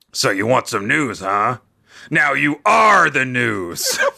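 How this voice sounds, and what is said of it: Cartoon villain character voice. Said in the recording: “in my Nappa voice ... Your Nappa's amazing ... That was spot on.”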